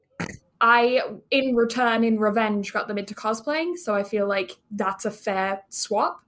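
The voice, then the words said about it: Mixed English and Canadian accent. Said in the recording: “I have a weird accent sometimes, I was born in England. I moved to Canada when I was 10 ... I learned in a Canadian accent. So I have a weird blend sometimes accent.”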